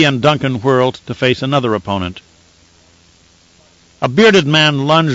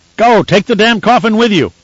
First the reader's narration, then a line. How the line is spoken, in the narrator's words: Resser shouted